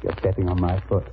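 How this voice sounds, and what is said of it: Whispering. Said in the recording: “whisper something in your ear”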